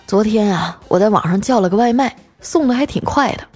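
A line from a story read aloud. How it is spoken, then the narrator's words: Sighing. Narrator (Chinese): 他叹了口气啊，说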